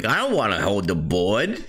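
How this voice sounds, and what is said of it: New Jersey accent. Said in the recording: “the father had a New Jersey accent”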